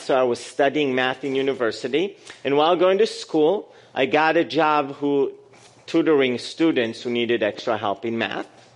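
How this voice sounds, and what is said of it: Israeli-accented English. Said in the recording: “she recognized my accent in English, and she asked me if I was Russian... no, I'm not Russian. I'm Israeli.”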